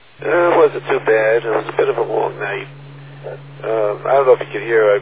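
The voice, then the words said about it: Hoarse, congested voice from a cold. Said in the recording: “I'm losing my voice a little bit. Picked up a head cold at work, and so I've been losing my voice... I get all clogged up, and my voice comes and goes... Doesn't sound too bad”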